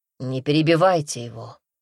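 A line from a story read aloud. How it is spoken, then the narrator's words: Icy tone. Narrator (Russian): прежним ледяным тоном произнес Дерсу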